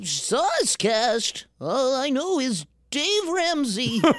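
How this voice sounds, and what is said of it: Old grandpa character voice. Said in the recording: “Give me your best grandpa impression.”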